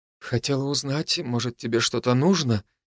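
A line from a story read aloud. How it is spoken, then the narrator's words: Quiet woman's voice. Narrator (Russian): тихо выдала женщина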